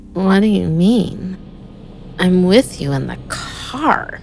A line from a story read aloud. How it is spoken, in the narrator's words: she slurred